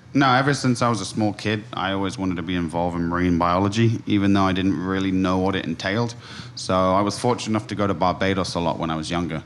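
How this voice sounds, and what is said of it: London accent. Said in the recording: “I'm judging from your accent that you're not from here ... I'm originally from London”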